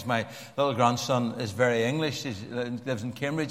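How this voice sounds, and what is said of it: Harsh Belfast accent. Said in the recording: “my harsh, some would unkindly say, Belfast accent”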